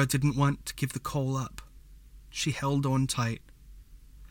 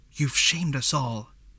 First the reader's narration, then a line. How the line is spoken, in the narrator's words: whispered